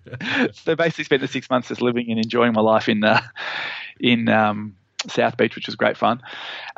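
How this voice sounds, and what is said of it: Australian accent. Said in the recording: “I'm a 21-year-old with an Australian accent”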